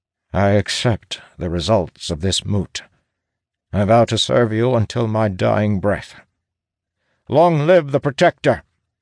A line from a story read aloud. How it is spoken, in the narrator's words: Sturgis says in a pained yet resigned tone